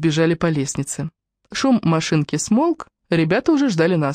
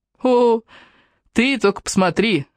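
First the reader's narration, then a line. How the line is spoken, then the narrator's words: Exclamation. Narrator (Russian): воскликнул Джастин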